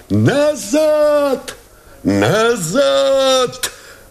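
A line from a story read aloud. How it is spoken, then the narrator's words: Shouting. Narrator (Russian): закричал Новиков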